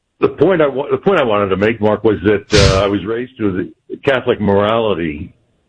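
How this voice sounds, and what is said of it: Polished radio announcer voice. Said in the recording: “that's a radio voice, America. you have a radio voice.”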